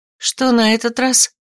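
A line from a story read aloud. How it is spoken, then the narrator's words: Sighed. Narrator (Russian): Вздохнула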